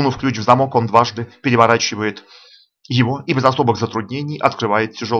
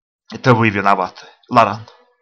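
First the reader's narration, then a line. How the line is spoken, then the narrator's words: Muttering. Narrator (Russian): бормочет американец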